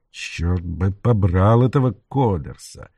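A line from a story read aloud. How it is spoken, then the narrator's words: Grumbling to himself. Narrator (Russian): ворчал он про себя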